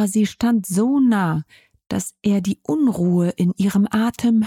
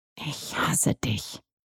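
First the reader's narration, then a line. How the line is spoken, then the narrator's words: Quiet. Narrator (German): sagte Jess leise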